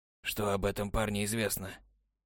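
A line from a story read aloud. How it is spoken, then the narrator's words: Adviser's muffled question. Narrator (Russian): глухо спросил советник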